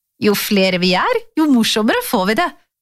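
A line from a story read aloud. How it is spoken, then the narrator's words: Plain. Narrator (Norwegian): sa tante alltid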